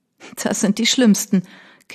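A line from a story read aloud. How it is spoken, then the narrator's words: Laughing. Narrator (German): lachte erneut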